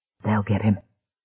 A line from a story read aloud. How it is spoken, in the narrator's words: Dick whispered